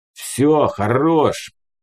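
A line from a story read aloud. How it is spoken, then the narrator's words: Gruff growl. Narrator (Russian): рыкнул бульдозером прапор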